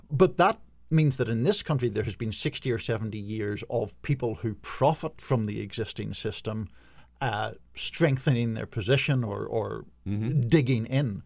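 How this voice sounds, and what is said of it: Foreign, non-American accent. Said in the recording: “as he alluded from my accent, yes. I'm not born in this country”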